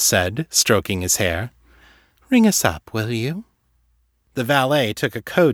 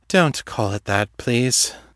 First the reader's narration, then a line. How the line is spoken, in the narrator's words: Morgan groaned